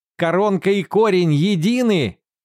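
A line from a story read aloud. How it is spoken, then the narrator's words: Shout. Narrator (Russian): кричал Уортон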